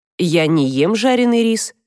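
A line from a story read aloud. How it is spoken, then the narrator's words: Plain. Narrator (Russian): сказал Адам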